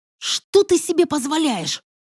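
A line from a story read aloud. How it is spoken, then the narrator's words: Hiss. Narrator (Russian): прошипела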